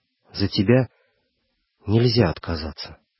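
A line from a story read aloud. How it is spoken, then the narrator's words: Whispered. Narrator (Russian): шепотом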